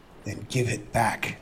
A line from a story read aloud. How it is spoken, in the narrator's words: Aspinall hissed